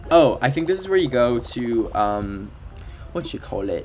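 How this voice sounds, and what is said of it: Put-on British accent. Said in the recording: “Why do I keep switching a British accent?”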